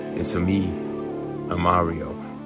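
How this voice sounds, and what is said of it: Low-pitched Mario character voice. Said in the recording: “That's very low, but very good.”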